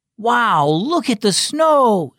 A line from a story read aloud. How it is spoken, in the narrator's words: 6-year-old Emery exclaimed